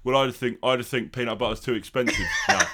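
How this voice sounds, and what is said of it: Lisping impression, sounds like full mouth. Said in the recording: “with Harry Kane's voice ... lisps ... You sound like you've got a refresher in your mouth.”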